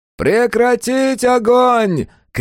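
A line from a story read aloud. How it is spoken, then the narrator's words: Shouted, then laughing. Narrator (Russian): крикнул Свинг и рассмеялся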